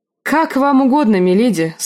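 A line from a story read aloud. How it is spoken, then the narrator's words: Agreeing. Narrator (Russian): согласился Родрик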